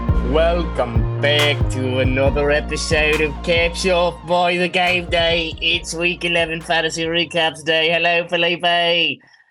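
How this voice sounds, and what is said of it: New put-on accent. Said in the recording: “that's a new accent there... you brought out a new accent”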